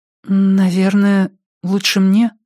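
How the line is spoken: Timid reply. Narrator (Russian): робко ответила она

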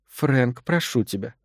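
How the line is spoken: Barely audible babble. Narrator (Russian): еле слышно пролепетала она

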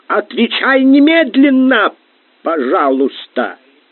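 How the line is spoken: Shouted. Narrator (Russian): Корнели закричал

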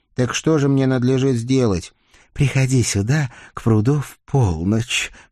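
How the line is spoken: Tearful sigh. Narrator (Russian): Все еще вытирая хрустальные слезки свои, вздохнула голубоглазая печальница

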